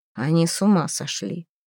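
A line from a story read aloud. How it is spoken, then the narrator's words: Grumbling. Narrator (Russian): проворчал Эрнель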